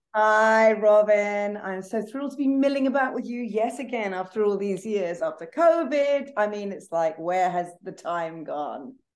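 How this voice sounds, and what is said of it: British accent. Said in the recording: “as you can tell with my British accent”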